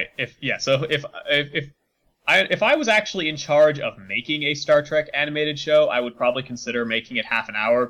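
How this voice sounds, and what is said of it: Congested, stuffy-nosed voice. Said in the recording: “my voice sounds weird. I have a bit of a stuffy nose.”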